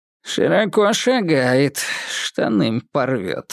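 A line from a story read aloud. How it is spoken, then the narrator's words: Snorting chuckle. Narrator (Russian): хмыкнул Жигулин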